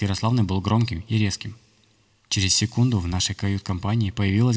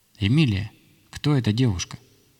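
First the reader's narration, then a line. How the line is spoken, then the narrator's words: Calmer question. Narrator (Russian): она более спокойным голосом спросила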